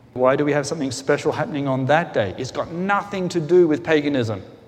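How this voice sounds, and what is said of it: Speaker's own noticeable accent. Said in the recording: “apart from my accent”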